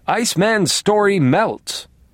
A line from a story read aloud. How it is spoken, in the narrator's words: screamed